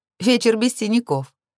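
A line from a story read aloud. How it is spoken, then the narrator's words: Burst out laughing. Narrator (Russian): расхохоталась я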